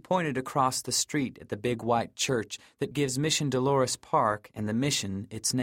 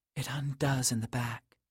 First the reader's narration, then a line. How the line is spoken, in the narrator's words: she whispered into my mouth